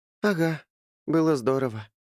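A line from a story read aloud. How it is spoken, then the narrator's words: Sighing. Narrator (Russian): вздохнула Эстель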